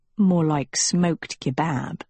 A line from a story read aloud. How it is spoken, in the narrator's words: Agatha murmured